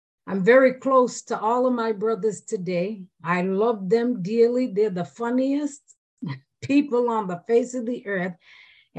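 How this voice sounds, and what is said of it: Massachusetts accent. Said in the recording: “lived in Massachusetts, still have my accent.”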